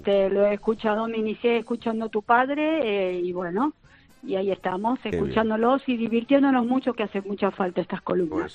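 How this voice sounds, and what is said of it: Argentine Spanish accent. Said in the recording (Spanish): “Me encanta su acento ... soy argentina”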